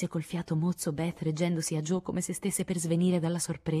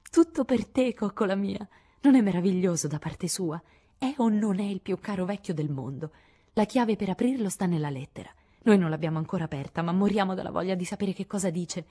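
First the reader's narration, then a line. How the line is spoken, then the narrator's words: Exclamation. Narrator (Italian): esclamò Joe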